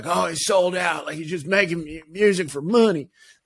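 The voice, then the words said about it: Put-on Southern accent. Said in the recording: “that was a Southern accent ... It's my go-to if someone's angry at me”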